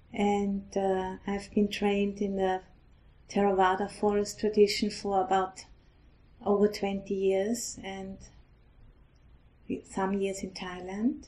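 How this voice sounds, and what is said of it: Austrian-accented English. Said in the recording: “I'm originally from Austria, so I speak with an accent”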